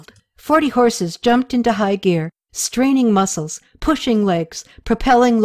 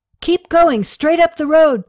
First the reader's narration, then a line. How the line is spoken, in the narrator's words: Toma yelled